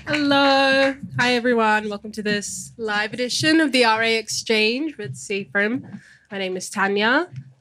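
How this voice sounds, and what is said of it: Very nasal, congested voice. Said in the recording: “I'm recovering from a cold, so I sound very nasally and annoying.”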